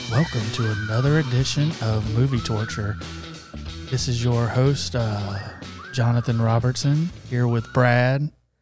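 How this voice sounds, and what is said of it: Calm, soothing imitated podcast voice. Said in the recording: “your best Roger impersonation ... You were so calm. ... Roger's got a calming voice.”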